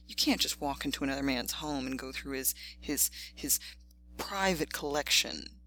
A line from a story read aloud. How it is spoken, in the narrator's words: he stuttered